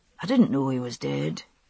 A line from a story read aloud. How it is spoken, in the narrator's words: he said softly